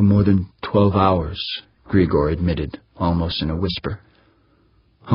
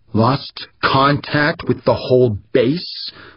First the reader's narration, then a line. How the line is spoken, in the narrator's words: Humphrey shouted